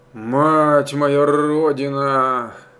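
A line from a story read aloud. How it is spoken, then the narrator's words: Groaning through gritted teeth. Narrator (Russian): Застонал он, заскрипел зубами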